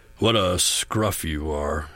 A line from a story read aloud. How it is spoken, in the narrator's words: grunted